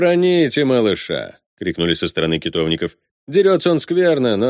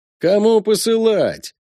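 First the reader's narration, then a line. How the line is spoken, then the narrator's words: Distant shout. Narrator (Russian): заорал с той стороны горник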